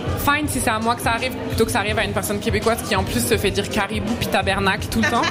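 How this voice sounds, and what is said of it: Strong metropolitan French accent. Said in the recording (French): “en tant que Française ... j'ai vraiment un accent français de chez français”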